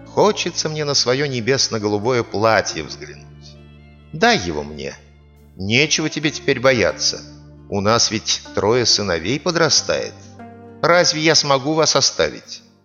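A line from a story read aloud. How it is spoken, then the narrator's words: Gentle fairy speaking. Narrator (Russian): говорит фея ласково мужу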